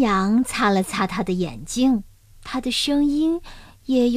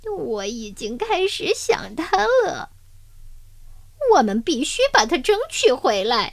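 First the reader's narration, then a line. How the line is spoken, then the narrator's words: Crying. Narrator (Chinese): 他哭着说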